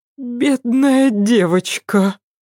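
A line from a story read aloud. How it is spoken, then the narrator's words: Sigh. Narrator (Russian): вздохнула она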